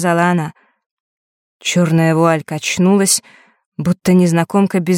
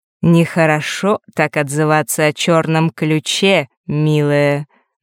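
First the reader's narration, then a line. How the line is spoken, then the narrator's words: Mocking. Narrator (Russian): насмешливо произнесла повелительница лютов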